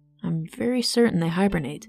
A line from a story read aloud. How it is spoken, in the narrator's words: Seb murmured, still lost in thought